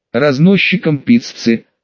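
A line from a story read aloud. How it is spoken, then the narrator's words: Snorting. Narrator (Russian): хмыкнул тот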